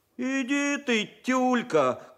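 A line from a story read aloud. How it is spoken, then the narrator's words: Schoolboy's running shout. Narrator (Russian): крикнул второгодник Борька Кулаков на бегу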